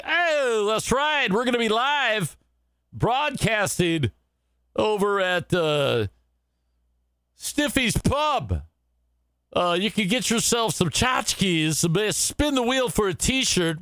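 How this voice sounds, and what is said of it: Cheesy radio announcer voice. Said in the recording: “my impression of radio guy”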